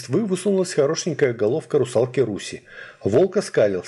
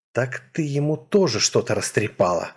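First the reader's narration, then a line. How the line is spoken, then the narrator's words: Resigned exhale, wolf. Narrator (Russian): обреченно выдохнул волк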